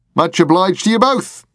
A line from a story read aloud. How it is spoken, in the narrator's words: called out